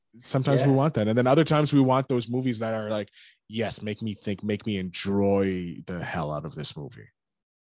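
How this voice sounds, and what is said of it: Canadian accent. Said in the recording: “I got this Canadian accent, eh?”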